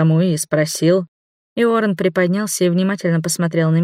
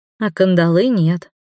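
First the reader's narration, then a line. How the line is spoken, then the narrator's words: Sighing. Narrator (Russian): вздохнула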